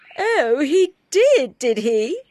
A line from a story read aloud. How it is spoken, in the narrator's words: said the tigress, who was now starting to chuckle